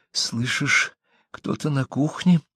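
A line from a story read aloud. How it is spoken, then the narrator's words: Whisper. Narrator (Russian): прошептала Кэрри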